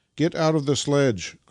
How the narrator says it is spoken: cried Nikita

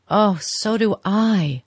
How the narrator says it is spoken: she cried with a deep breath of relief

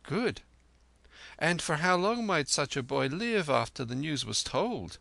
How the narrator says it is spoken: He smiled merrily

